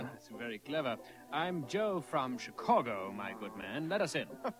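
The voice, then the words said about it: Put-on French accent. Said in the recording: “Why are you speaking with a French accent?”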